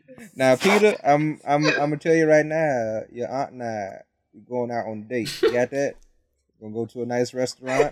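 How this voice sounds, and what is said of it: Country-fried character impression. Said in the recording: “Is this your Tony Stark impression? ... he just turned country fried out of nowhere.”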